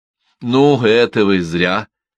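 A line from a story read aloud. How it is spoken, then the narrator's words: Laughing. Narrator (Russian): Лузгин засмеялся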